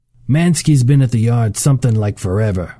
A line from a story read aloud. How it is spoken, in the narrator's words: Bosco said